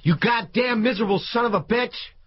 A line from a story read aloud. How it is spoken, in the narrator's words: He shouted